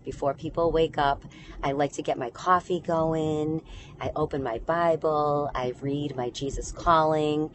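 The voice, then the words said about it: Serene, quiet, peaceful voice. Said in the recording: “You can hear it in my voice. It's very serene and it's very quiet”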